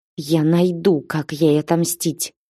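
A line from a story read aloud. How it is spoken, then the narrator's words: Through gritted teeth. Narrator (Russian): процедила сквозь зубы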